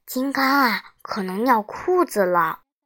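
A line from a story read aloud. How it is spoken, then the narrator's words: Quiet whisper. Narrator (Chinese): 胡小图小声说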